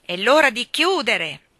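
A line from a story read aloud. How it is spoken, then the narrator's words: Guard shouting again. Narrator (Italian): il guardiano gridò di nuovo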